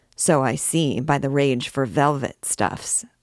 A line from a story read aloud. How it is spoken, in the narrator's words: said the furrier